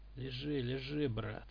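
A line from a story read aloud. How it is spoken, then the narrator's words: Wolf muttering. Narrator (Russian): пробормотал волк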